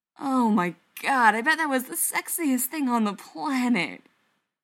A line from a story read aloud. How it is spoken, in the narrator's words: Brendan groans